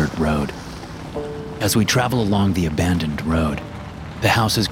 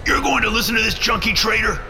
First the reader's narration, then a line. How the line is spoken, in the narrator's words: Bo barks